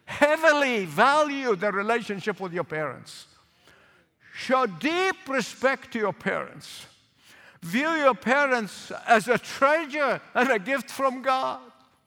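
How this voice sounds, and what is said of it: Noticeable foreign accent. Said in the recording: “my accent might get you mixed up ... Don't let my accent confuse you”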